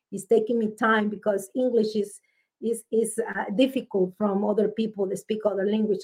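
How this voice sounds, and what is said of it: Strong Spanish accent. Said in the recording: “my first language is Spanish. And you can hear in my accent is strong.”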